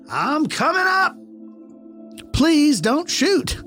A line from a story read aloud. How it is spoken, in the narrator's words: Once again, I yelled a little louder